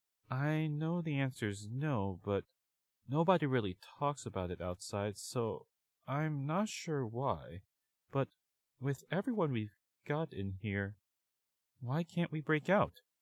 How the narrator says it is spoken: sighed

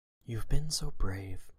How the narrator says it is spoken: whispered, so quiet it was barely audible

